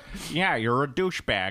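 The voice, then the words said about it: Benedict Cumberbatch's put-on American accent. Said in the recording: “I'm using my American accent ... Benedict Cumberbatch's accent is so awful”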